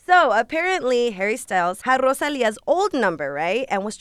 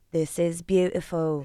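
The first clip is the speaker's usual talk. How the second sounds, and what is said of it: Put-on English accent. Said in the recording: “he has an English accent. ... That accent was beautiful.”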